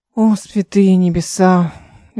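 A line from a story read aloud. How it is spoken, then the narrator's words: Sighing exclamation. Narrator (Russian): Эл вздохнула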